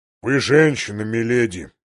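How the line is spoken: Muffled boom. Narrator (Russian): глухо прогудел Большой Джон

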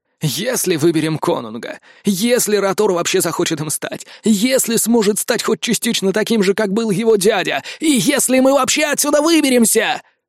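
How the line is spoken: Grumbling spear. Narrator (Russian): проворчал копье

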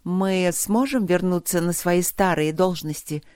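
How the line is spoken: Plain question. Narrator (Russian): спросила советница Атиди

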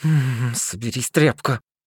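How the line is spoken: Grumbling. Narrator (Russian): проворчал Никфор

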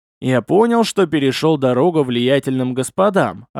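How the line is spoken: Plain. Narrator (Russian): ответил я

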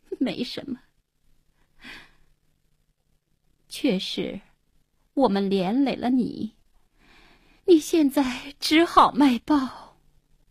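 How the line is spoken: Wry bitter laugh. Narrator (Chinese): 黄英定定神，苦笑了

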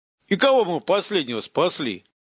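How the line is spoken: Snort. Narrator (Russian): хмыкнул его собеседник

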